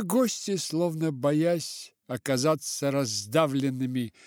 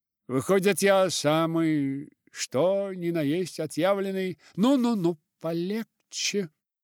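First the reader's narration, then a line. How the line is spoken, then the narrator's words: Booming deep bass voice. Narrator (Russian): Прогудел вдруг своим густым басом, как раз вовремя заглушив язвительные слова Дика Голдинг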